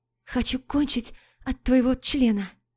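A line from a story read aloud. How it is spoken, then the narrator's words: Pleading between moans. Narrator (Russian): Между стонами просит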